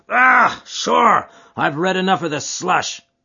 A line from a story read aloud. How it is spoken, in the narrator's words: cried the chairman